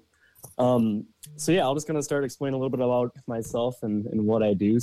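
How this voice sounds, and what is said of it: Minnesota accent. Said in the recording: “Minnesota? Yep, Minnesota. Okay, so you'll notice an accent with”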